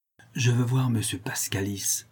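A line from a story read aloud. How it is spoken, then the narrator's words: Low secretive request. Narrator (French): demanda Béranger à voix basse avec une pointe de secret dans la voix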